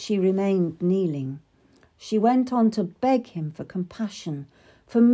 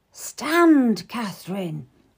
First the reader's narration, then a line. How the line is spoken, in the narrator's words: whispered